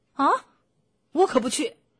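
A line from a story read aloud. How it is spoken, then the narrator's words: Screaming. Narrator (Chinese): 邦斯尖叫着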